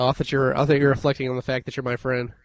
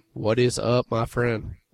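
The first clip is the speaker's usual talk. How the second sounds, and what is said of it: Put-on sexy voice. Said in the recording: “sexy voice”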